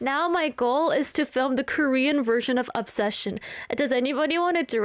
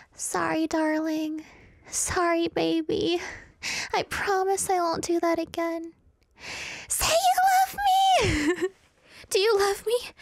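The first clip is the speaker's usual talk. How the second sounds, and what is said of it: Imitates a toxic girlfriend character. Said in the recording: “I can do a good impression of Nikki from Obsession ... I can be a great Nikki”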